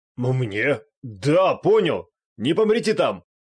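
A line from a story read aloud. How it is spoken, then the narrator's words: Shouting. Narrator (Russian): Крикнул авантюрист, которого другие называли лидером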